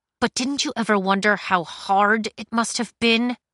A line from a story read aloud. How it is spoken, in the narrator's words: Cinder said through her teeth